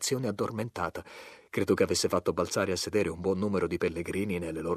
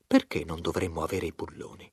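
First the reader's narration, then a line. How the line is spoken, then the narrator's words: Reasonable tone, boilermaker. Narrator (Italian): disse in tono ragionevole il fabbricante di caldaie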